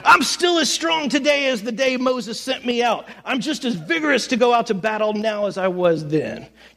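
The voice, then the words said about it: Old person voice. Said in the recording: “my old person accent”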